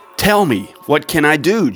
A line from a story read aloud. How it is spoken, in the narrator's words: Jonathan exclaimed